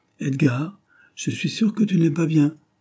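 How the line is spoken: Exclaiming. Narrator (French): s'écria Jane

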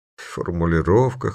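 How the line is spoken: Snorting. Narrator (Russian): хмыкнул Диц

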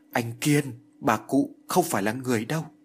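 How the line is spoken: Stammering, halting fear. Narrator (Vietnamese): Kiều Như lắp bắp, miệng nói như ngắt quãng, nói

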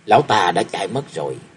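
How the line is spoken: Muttering. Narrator (Vietnamese): Thương Yến lẩm bẩm

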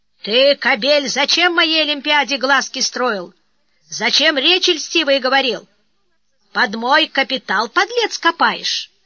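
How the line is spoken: Loud angry bark. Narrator (Russian): Наконец он громко рявкнул

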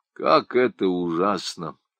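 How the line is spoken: Sighing. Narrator (Russian): вздохнул летописец

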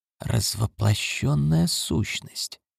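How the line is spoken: Quiet repetition. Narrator (Russian): тихо повторил Крафт

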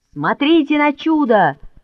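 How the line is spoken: Shouted. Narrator (Russian): закричал Мишка

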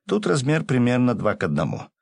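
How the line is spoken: Laughing. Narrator (Russian): рассмеялся, расслышавший его управляющий

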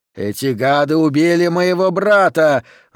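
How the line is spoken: Angry shout. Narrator (Russian): злобно прокричал один из кротов

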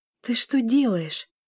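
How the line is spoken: Whisper. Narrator (Russian): шептала Лиля

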